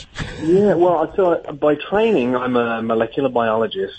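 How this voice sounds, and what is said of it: English accent. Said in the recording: “No, I'm English”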